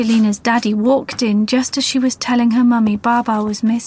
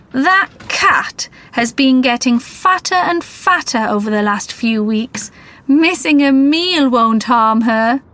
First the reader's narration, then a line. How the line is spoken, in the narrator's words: He laughed and he said